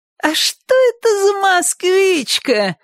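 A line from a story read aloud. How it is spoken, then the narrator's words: Shouting. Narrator (Russian): крикнул Шурик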